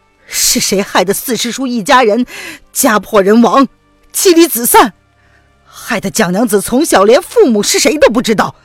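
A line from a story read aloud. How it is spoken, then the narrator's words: Choking with sobs. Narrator (Chinese): 沈轩忍不住的哽咽起来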